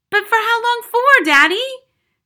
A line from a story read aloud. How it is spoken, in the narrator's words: cried Matilda